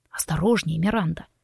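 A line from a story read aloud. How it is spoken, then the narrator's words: Hoarse, breathy voice. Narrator (Russian): прохрипел Форест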